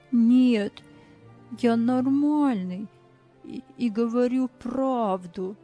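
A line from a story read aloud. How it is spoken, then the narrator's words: Quiet trembling voice. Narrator (Russian): Тихим, дрожащим голосом он ответил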